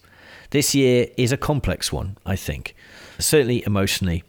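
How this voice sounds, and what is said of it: Tired, lower-pitched voice. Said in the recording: “I am exhausted... you can hear when I'm really tired... you can hear my voice is lower than it is normally. And that's just tiredness.”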